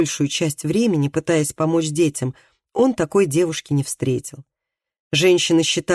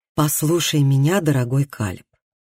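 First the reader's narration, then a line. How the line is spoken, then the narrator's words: Gentle but firm. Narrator (Russian): ласково, но твердо начала она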